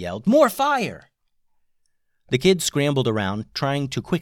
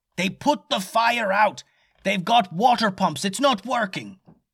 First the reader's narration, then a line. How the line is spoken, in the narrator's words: yelled